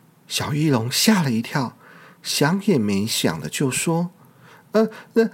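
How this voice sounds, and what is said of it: Usual voice. Nothing is said of it.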